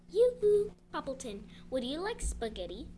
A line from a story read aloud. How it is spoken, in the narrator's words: she called out